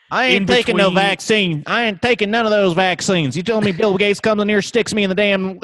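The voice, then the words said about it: Exaggerated Southern country accent. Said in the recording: “your first bad impression, ... that just sounds like country Tony Soprano ... it sounds like fucking the truck from Cars”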